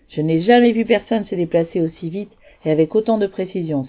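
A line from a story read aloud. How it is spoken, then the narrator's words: Exclaimed. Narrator (French): s'exclama-t-il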